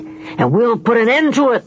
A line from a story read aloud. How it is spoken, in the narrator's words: they bellowed